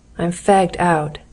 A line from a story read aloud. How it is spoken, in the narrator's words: said Ronnie wearily